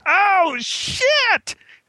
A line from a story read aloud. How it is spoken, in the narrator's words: he silently screamed